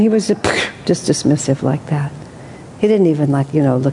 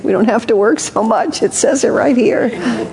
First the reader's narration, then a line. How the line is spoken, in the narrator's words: people would desperately say